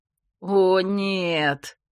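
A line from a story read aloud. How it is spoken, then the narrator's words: Groan. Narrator (Russian): простонал Грег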